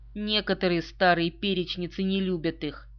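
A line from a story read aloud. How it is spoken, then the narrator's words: Plain. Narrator (Russian): сказал генерал Грант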